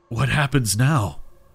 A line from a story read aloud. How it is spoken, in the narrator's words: he asked hoarsely